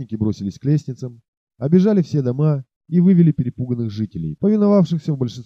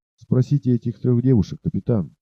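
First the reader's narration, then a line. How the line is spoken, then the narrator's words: Quiet whisper. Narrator (Russian): тихо шепнул он Сигену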